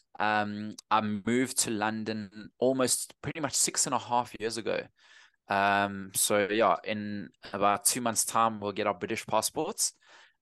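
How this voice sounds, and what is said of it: Strong South African accent. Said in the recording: “Still got a very strong South African accent, as you can tell.”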